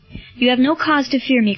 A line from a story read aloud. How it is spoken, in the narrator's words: cried Marcellus